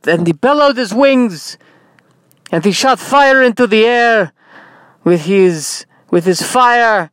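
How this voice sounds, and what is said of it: Inconsistent Russian-ish character accent. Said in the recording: “your accent is all over the map. Are you Russian? Are you Jewish? Are you Jewish Russian?”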